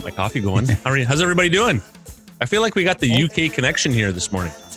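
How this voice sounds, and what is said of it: Usual voice. Nothing is said of it.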